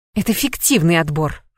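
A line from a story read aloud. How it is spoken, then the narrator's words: Uncertain snort, witch. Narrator (Russian): фыркнула ведьма, но неуверенность в ее голосе присутствовала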